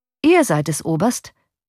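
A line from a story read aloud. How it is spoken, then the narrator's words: Plain. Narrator (German): sagte er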